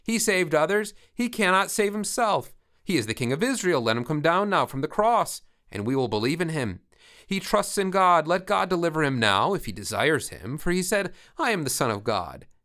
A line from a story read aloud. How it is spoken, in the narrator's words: the chief priests, with the scribes and elders, mocked him, saying